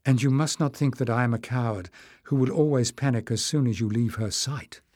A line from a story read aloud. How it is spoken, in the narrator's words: Marilyn said in a low voice